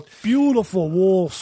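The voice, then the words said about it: Attempted imitation of thick accent. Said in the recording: “I can't even do the accent. It's so thick. Like my teeth aren't the right shape to talk like this guy.”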